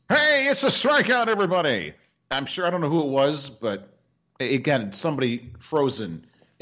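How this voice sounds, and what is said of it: Old-timey sports announcer voice. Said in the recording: “I love the old-timey announcer voice.”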